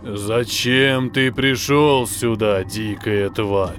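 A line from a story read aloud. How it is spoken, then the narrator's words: Hollow echoing male voice. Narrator (Russian): Глухо, как из бочки, эхом повторил за женщиной мужчина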